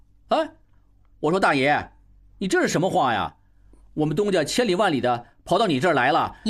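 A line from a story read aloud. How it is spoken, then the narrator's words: Called out. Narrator (Chinese): 小栓 叫道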